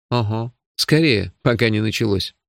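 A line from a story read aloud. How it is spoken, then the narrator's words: Snort. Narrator (Russian): фыркнул я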